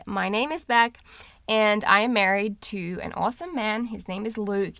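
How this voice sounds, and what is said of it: Speaks with a non-American accent. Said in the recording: “my accent issues aside”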